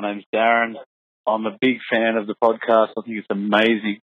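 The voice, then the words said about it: Australian accent. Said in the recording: “clearly Australian, if he didn't pick up on the accent there”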